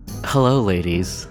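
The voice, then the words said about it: Sultry pirate character voice. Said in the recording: “Let me try to do the sexiest pirate voice possible.”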